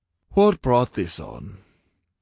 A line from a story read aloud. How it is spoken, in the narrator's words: Morgan sighed